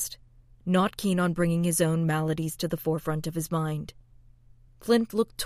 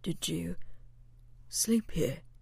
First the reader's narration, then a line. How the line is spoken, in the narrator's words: he whispered, sounding even more confused